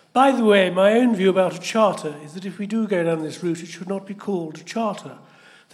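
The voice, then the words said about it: Posh British accent. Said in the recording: “can you do a sufficiently posh accent?”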